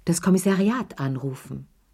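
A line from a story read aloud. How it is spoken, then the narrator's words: Plain. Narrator (German): sagte Lea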